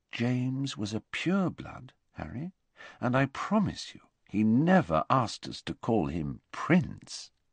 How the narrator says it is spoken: said quietly

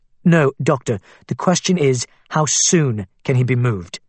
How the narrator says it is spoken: She said firmly

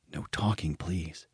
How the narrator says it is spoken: he whispered back

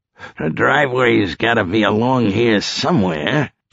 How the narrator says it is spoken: Dino muttered

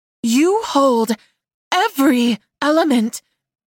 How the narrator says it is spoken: gasped, as if she couldn't believe it were true

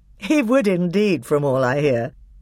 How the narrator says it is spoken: said Peter with a laugh

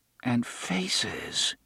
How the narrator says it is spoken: he muttered

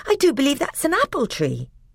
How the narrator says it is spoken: exclaimed Lucy

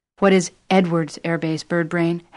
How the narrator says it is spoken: Howard said

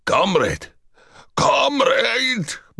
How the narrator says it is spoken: Borovitz howled

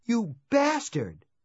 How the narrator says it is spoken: she cried

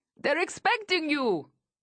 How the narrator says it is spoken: shouts

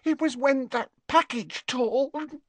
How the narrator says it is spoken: sobbed Leanne

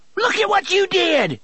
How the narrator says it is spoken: Tilly screamed

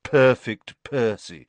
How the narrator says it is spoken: muttered Fred

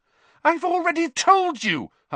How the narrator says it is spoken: Hermione said very angrily

